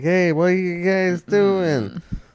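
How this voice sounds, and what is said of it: Imitates another person's voice. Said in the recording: “That's my Joe Pesci impression.”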